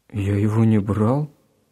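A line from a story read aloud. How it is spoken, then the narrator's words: Confused reply. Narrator (Russian): растерянно ответил Гена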